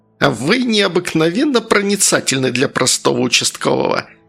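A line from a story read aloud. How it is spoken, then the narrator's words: Snide creaky voice. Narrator (Russian): продолжал ехидно поскрипывать Васюков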